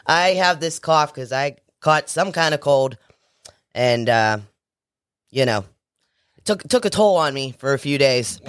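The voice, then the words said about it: Raspy, hoarse voice from a cold. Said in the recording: “my voice gets raspy ... I sounded like like somebody who's been smoking for 100 years”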